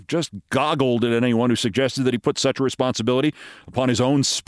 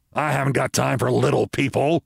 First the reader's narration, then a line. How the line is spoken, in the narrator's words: Ross snarled